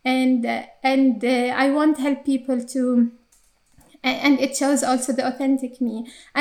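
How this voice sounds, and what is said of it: Arabic-accented English. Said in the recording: “I have Arabic English accent when I speak in English”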